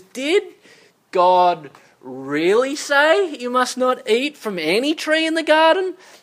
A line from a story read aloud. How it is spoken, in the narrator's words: it begins with a sneer